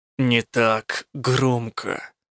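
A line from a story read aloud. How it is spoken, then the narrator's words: Grumbled. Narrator (Russian): проворчал Рук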